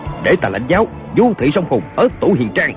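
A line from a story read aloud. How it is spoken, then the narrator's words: Shout. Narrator (Vietnamese): Kiều Phong quát lên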